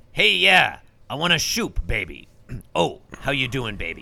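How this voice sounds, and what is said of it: Imitates another person's voice. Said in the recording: “in my best Jimmy Durante voice”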